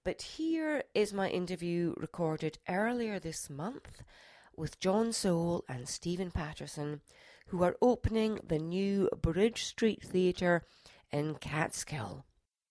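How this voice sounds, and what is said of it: Voice lower than usual, sick. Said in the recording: “forgive my voice as it's a bit lower than it normally is because I've got a cold”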